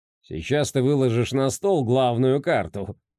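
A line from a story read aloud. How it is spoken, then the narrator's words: Smirking. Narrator (Russian): хмыкнул Гильдер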